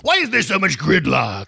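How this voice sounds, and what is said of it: Comedic put-on character voice. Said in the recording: “I'm doing my Jiminy Glick voice again.”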